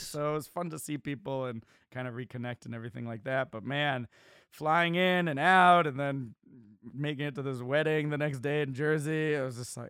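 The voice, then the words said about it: Tired-sounding voice. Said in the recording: “I'm beat, man. I'm tired. You could probably hear it in my voice.”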